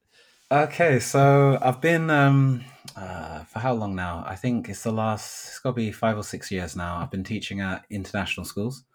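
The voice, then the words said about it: British accent. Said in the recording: “got a British accent”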